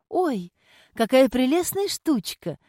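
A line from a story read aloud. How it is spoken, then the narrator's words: Exclaiming. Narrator (Russian): воскликнула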